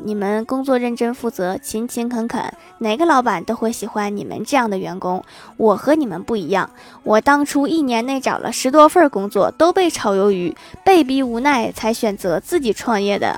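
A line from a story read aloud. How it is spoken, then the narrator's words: Sighing, reflective. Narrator (Chinese): 我们领导感叹地说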